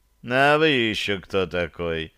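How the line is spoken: Lazy question. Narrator (Russian): лениво поинтересовался Ромуал

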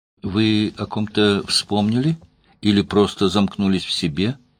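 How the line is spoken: Asked softly. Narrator (Russian): мягко спросила Даша

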